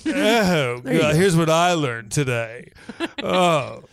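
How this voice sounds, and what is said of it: Ostentatious, showy voice. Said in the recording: “in your most ostentatious voice.”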